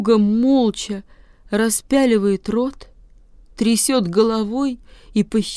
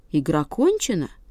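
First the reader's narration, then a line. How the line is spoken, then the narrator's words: Calm. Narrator (Russian): спокойно говорит котика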